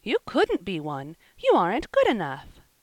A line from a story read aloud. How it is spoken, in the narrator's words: exclaimed Polly, quite shocked